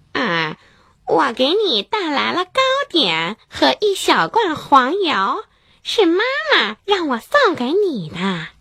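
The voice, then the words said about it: Pinched voice imitating Little Red Riding Hood. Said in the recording (Chinese): “大灰狼捏着嗓子，学着小红帽的声音说”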